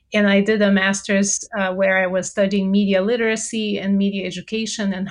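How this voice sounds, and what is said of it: Brazilian accent. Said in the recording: “I'm originally from Brazil. So if you detect an accent, that's where it's from.”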